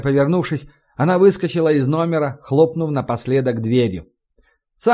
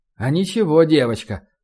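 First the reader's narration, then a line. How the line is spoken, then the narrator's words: Muttered. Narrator (Russian): пробормотал он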